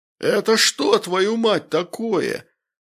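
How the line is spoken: Wild yelling. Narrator (Russian): заорал он диким голосом

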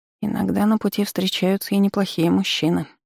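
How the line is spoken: Muttered to herself. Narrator (Russian): пробормотала она под нос, будто желая убедить саму себя

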